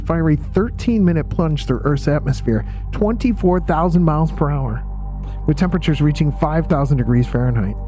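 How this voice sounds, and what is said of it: Calm, laid-back planetarium narrator voice. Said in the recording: “creepy voice guy from the planetarium ... being calm ... Laid back to match the atmosphere of the planetarium”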